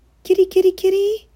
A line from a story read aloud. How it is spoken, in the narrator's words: called nervously